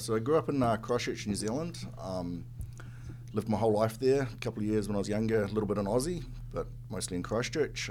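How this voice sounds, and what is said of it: New Zealand accent. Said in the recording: “we can kind of tell a little bit from the accent. You're not quite from around these parts”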